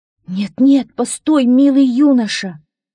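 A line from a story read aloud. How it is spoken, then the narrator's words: Lovestruck exclamation, giantess. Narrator (Russian): воскликнула великанша, которая влюбилась в него с первого взгляда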